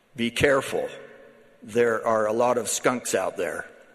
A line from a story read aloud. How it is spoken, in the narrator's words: He said in his gravelly voice